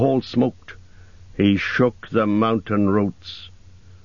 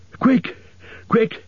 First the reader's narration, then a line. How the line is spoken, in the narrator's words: he gasped